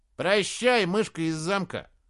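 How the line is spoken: Soldier's mocking shout. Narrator (Russian): Насмешливо крикнул другой солдат

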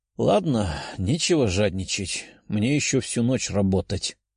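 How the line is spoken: Sighing. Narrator (Russian): вздохнул парень

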